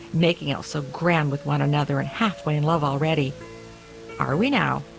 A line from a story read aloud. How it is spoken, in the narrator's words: the cook snorted